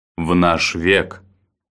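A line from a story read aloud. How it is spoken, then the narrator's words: Gloomy. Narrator (Russian): мрачно произнес Баррис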